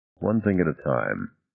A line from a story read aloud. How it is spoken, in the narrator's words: Monroe repeated quietly